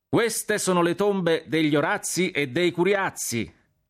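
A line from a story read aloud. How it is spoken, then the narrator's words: Shouting. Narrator (Italian): gridai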